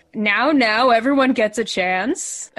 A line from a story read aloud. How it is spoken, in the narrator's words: the man like laughs and he says